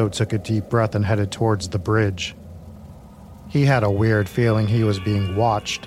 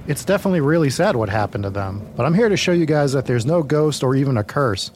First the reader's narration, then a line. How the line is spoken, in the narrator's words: exclaimed confidently